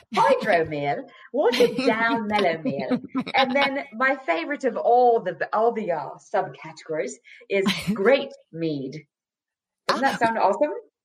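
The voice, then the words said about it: Put-on English accent, fairly good. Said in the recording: “I should be saying these with an English accent ... you do a pretty good accent”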